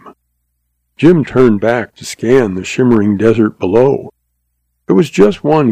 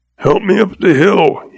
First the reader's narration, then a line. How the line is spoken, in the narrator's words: he choked